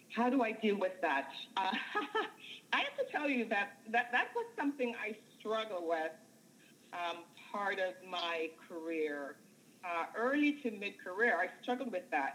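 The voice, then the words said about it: Jamaican accent. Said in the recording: “my accent ... if they know that I'm Jamaican. And of course, my accent, you know, gives me away”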